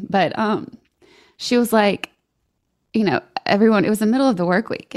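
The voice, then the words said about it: Shaky, emotional voice. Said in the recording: “my voice is so shaky. This is very emotional for me.”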